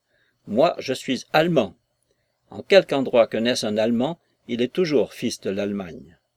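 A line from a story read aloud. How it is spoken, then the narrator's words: Curt retort. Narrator (French): il repartit d'un ton sec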